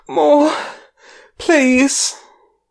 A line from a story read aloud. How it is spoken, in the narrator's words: her gasp out